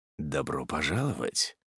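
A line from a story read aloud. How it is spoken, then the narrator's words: Low confident voice. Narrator (Russian): произнес низким голосом, словно держа в руках все карты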